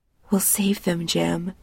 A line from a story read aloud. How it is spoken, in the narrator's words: she whispers